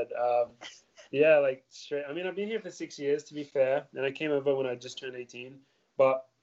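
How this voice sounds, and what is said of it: Australian speaker with strong American accent. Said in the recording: “have you got a little bit of an American accent going on there ... More than a little bit. I sound super American. I sound more American than Australian now.”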